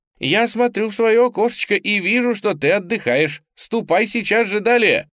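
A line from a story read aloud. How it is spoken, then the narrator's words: Shouting woman. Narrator (Russian): одна из красавиц в коробке закричала ему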